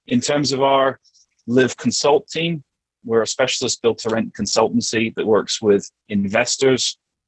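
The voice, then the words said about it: Mixed Canadian and British accent. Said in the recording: “I'm originally Canadian, born in BC. So you may hear my accent sort of kind of goes between UK and Canadian, depending on who I'm talking to.”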